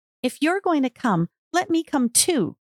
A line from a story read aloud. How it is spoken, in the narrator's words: she begged